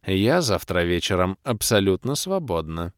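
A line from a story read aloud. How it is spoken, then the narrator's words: Purred. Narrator (Russian): промурлыкала паладинша Кирея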